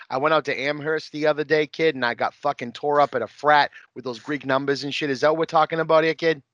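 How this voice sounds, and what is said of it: Exaggerated put-on Boston accent. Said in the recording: “my Boston fucking accent”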